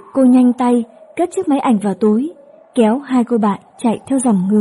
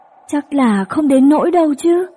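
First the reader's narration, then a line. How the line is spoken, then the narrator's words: Whining. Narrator (Vietnamese): chị Vi rên rỉ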